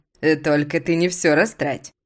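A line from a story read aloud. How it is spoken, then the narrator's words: Laughing husband. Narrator (Russian): смеялся муж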